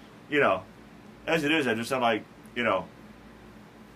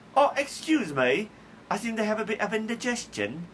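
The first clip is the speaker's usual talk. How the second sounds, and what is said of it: Put-on classy British accent. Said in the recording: “this will sound classier with a British accent. See, if I had a British accent, ... it just sound classy”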